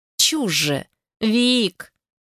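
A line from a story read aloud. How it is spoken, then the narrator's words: Drawn-out, breaking reverie. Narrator (Russian): Протянула она, чтобы как-то прервать раздумье и вернуться в реальность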